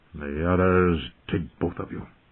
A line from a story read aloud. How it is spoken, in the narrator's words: Ned muttered darkly